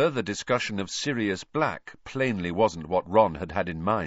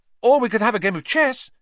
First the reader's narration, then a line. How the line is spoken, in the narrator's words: he said hastily